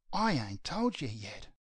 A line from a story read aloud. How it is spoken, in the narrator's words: she whispers